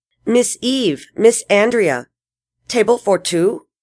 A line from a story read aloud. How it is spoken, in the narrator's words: She asked in a thick Spanish accent